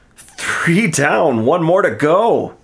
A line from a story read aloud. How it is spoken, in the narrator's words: Chase shouted in triumph